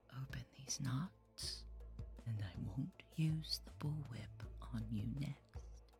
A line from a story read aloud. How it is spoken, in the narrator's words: she whispered, her breath hot against my ear